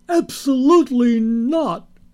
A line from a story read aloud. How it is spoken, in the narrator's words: she shouted